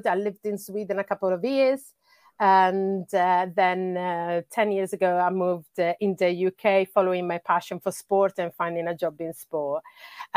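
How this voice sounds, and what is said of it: Italian accent in English. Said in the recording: “I hear like a different accent kind of sneaking in ... as you can guess from my accent, I'm not a Briton. ... I'm originally from Italy.”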